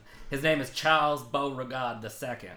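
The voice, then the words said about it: Put-on southern American accent. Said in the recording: “You did that with a southern accent.”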